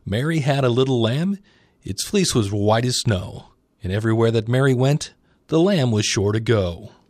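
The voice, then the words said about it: Radio announcer voice. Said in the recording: “That's why I'm using my radio voice.”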